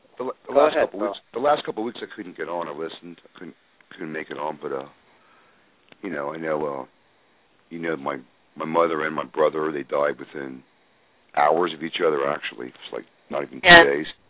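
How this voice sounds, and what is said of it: Hoarse, failing voice. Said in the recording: “Just kind of sick. I'm kind of losing my voice.”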